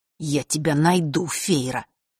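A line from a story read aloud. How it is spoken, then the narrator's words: Through gritted teeth. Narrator (Russian): процедил вместо него Фэш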